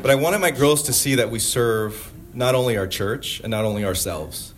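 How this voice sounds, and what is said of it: Emotional, moved speaking voice. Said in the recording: “I'm getting emotional, guys. I get emotional.”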